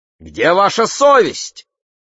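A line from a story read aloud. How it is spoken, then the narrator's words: Man shouting. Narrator (Russian): крикнул мужчина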